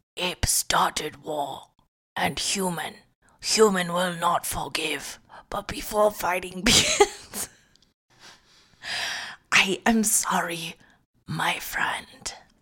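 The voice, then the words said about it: Old man's voice. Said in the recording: “Why do you sound like an old man?”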